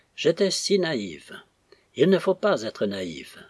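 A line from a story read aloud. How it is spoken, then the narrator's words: Sad, anguished repetition. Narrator (French): répétait-elle tristement, sans pouvoir exprimer mieux une angoisse trop nouvelle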